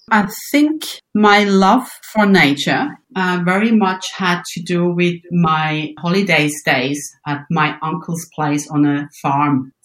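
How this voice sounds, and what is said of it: Swiss German accent. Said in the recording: “I think my accent gives it away... I am born in Switzerland in the area of Bern”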